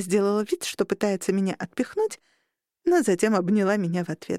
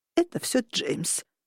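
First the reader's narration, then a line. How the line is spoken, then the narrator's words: Grandmother's mournful mutter. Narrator (Russian): скорбно пробормотала бабуля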